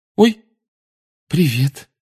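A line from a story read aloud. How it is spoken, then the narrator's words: Frightened reply. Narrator (Russian): испуганно отозвалась она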